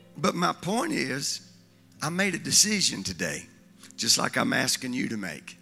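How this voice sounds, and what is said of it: Crackly, strained voice. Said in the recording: “your voice is just a little crackly? ... The last thing I want to sound is like Kermit. ... your voice going out”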